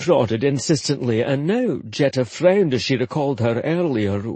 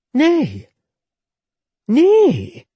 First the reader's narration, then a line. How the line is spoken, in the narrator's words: she answered promptly and firmly